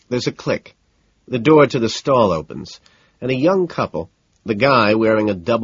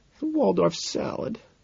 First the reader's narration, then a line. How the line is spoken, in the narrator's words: she murmurs